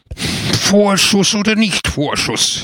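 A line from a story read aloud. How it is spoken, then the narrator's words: Shrill shout. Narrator (German): schrie er mit schriller Stimme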